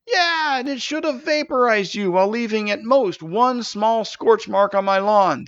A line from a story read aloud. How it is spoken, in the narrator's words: the dragon screamed in Stavius's mind